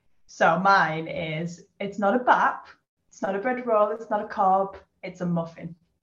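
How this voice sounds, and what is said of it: Northern English accent. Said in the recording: “I'm very, very northern, I think. My accent a little bit”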